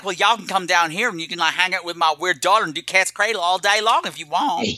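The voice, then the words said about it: Exaggerated hillbilly Southern accent. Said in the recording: “the post office lady is straight up hillbilly Southern”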